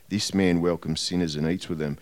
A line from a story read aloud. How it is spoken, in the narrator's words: the Pharisees and the teachers of the law muttered